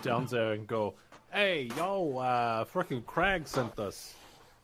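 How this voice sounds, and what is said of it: Put-on different accent. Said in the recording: “Can you just change your accent? ... we all can change our accents at any moment”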